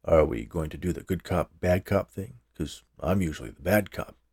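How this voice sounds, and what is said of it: Low voice. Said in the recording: “speaking in a low voice”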